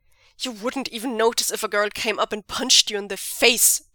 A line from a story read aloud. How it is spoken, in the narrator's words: Zheng Cheng snaps